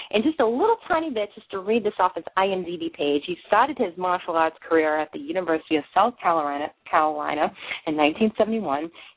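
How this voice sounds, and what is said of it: Boston accent. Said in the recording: “I have the Bostonian accent,”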